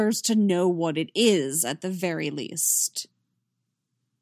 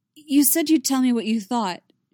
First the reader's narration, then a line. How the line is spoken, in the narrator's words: she says, a little desperately